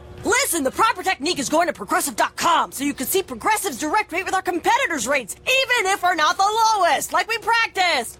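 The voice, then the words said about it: Coach giving a pep talk voice. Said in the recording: “my impression of a coach giving the ultimate pep talk”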